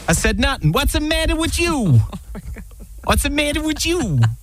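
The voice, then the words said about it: Attempted put-on accent. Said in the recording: “Kudos for the accent attempt.”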